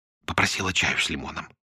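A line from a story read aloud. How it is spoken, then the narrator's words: Whispered report. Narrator (Russian): шепотом отчиталась Мира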